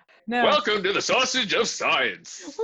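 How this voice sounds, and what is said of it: Exaggerated radio announcer voice. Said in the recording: “I have been practicing my exaggerated radio voice.”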